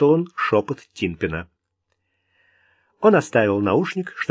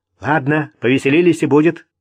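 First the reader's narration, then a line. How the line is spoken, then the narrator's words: Sharp. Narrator (Russian): резко сказал Питерсон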